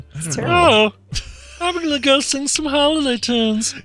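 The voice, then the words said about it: Bad Zooey Deschanel impression, Pee-wee-like. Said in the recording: “That was the worst Zooey Deschanel voice I ever heard ... You sound like Pee Wee Herman.”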